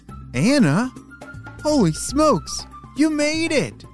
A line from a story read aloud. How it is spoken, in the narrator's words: John called back very excitedly